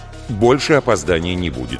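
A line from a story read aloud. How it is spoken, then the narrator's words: Plain. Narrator (Russian): сказал Давид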